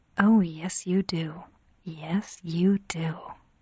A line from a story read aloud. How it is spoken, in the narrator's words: she whispered back